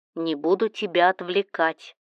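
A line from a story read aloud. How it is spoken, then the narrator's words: Plain. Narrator (Russian): сказал Кирилл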